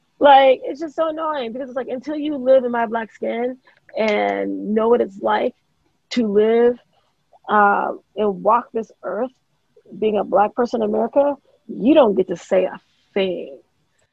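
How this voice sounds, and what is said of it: Hoarse, worn-out voice. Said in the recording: “You can hear it in my voice. My voice is gone, man.”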